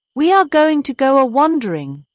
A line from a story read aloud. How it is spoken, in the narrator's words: cried Toad